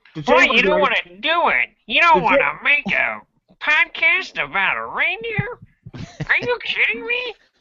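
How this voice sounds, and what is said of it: Impression of the work elf. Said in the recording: “my impression of the work elf”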